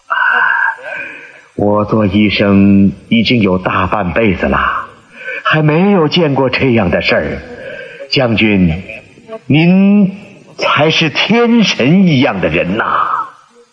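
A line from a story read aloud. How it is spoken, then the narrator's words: Admiring. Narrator (Chinese): 华佗赞叹地说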